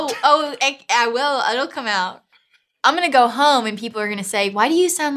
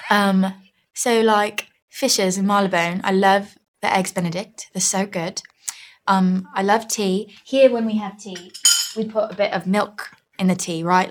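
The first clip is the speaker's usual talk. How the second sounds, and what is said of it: Put-on British accent. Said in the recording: “now, okay, I'll do British.”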